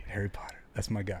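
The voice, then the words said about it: Dramatic whisper. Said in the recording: “whisper ... For dramatic effect.”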